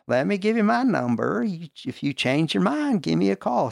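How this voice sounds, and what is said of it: Imitated Tennessee Southern accent, poorly done. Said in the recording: “for all you Tennesseeites out there, forgive me for butchering your accent”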